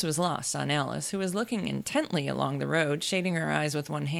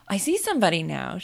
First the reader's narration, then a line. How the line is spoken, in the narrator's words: she exclaimed at last